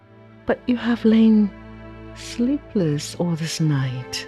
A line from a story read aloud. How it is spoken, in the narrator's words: And then she said most gently